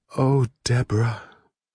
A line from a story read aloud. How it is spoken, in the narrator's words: I sighed, very softly